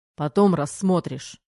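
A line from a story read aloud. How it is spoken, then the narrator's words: Barked. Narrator (Russian): рявкнул Терех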